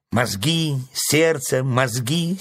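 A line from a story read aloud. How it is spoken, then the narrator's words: Angry crow interrupting. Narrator (Russian): сердито оборвала ворона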